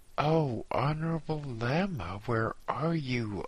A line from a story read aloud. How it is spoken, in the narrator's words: I cried